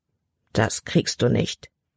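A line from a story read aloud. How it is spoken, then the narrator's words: Murmured. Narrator (German): murmelte sie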